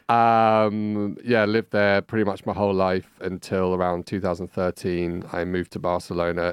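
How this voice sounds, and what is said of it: London English accent. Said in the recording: “I'm originally from London, hence this accent.”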